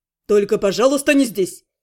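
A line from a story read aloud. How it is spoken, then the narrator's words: Snorting. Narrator (Russian): фыркнул Шон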